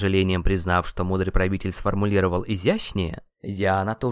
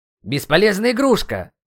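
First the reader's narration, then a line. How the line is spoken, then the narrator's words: Weakening scream. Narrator (Russian): закричал Кетцалькоатль, когда почувствовал, что силы оставляют его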